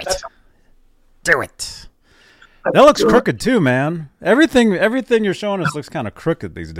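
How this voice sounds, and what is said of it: Usual voice. Nothing is said of it.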